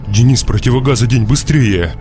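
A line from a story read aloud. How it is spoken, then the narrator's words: Shouted. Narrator (Russian): крикнул я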